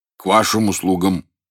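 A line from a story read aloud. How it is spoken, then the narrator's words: Low, still-sleepy voice. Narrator (Russian): сказал Гриша низким голосом, еще не вполне чистым, еще звучавшим из сна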